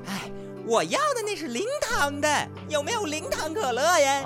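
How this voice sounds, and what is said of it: Shouting at the shopkeeper. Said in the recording (Chinese): “您别喊了，好家伙，您跟我这喊的怪甚的”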